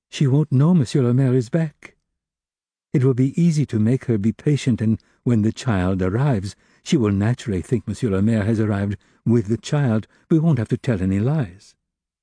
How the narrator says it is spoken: went on timidly

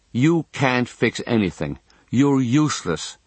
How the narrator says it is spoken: she says

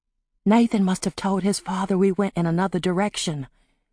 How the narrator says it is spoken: Polly whispered

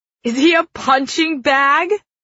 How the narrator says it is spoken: Killorn laughs

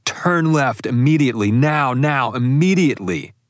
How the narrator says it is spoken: started screaming

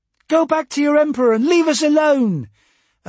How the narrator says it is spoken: a pretty girl shouted

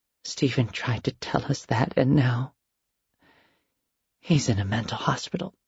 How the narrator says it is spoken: whispered into his ear

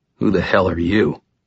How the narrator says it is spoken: he growled

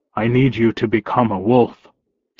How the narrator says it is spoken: Thomas said

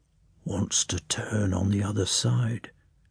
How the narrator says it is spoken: whispered the servant

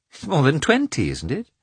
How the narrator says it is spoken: Although Anna spoke playfully, irritation was perceptible in her tone

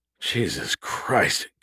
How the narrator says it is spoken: Gus muttered, unimpressed

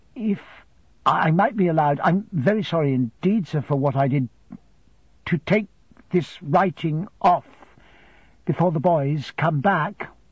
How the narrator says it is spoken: I faltered

